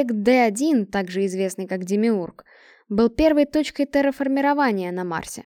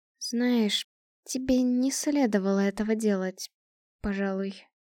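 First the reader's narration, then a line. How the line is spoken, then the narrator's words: Timid. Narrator (Russian): робко произнесла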